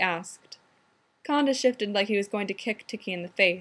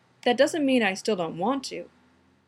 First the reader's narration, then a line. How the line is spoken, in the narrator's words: he added hastily